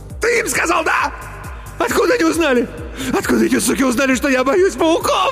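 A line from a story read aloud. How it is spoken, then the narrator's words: Shrill squeal, choking. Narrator (Russian): Взвизгнул Иван и захлебнулся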